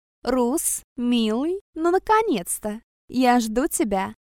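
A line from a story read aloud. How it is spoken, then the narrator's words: Slow cooing drawl. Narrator (Russian): Проворковала медленно, растягивая слова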